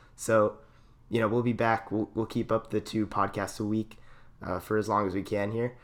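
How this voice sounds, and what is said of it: Hoarse, nearly lost voice. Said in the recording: “my voice is just gone”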